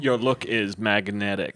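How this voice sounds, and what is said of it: Imitates another person's voice. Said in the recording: “my Andy Warhol impression”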